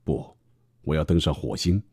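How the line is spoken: Smiling, cheerful. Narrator (Chinese): 马斯克笑眯眯地说

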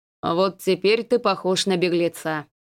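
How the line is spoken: Deep bass voice. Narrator (Russian): пробасил провожатый

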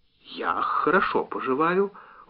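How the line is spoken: Frightened. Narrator (Russian): уже испуганно сказала

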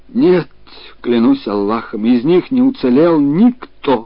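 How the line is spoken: Plain. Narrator (Russian): сказал я

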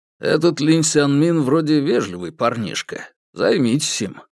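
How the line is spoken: Quiet request. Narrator (Russian): Ду Цзяньпин тихо попросил

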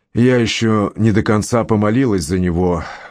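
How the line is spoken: Sighing. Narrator (Russian): вздохнула мать

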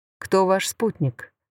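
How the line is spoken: Dry. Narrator (Russian): спросил он сухо

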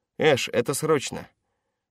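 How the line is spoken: Clipped, alarmed woman. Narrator (Russian): Она говорила отрывисто, в голосе звучала тревога

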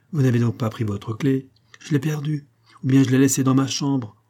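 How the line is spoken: Plain. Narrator (French): répondit le maître

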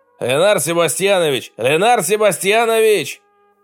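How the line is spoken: Lieutenant shouting. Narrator (Russian): поручик закричал

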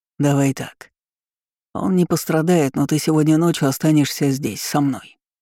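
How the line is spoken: Serious male voice. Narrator (Russian): серьезным тоном произнес мужчина

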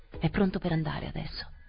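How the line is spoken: Whispered exclamation. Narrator (Italian): esclamò in un sussurro

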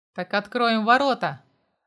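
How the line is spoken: Barked shout. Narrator (Russian): рявкнул я

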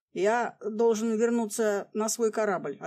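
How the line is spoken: Plain. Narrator (Russian): ответил тот

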